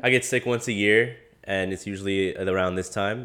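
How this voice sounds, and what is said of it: Congested, stuffy voice. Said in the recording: “isn't the sexy voice supposed to be raspy, not congested?... I'm a little congested right now, a little stuffy.”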